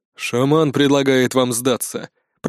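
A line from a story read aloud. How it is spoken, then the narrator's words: Deep bass voice. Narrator (Russian): пробасил главный из троицы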